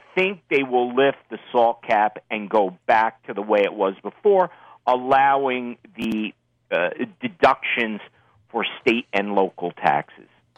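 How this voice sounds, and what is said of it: Northeastern US accent. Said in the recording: “I could tell your accent. you're one of us up here in the Northeast”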